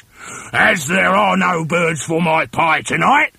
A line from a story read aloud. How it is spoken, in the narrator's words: he shouted